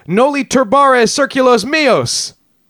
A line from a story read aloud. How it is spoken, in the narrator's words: He supposedly cried